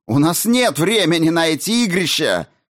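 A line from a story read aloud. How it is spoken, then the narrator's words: Woman yelling. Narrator (Russian): заорала Дженсен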